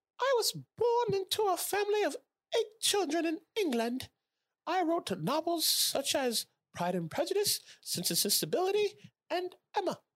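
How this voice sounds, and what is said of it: Put-on accent. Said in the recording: “I'm gonna have to do an accent for this one”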